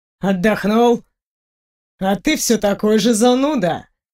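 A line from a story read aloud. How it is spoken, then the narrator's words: Snorting. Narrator (Russian): хмыкнул Фенрир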